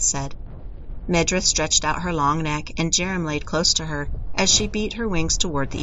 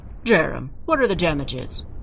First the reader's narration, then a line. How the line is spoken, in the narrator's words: Trendle barked